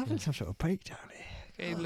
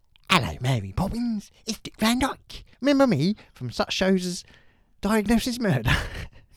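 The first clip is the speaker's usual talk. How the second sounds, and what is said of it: Dick Van Dyke impression. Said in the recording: “I do an impression of him”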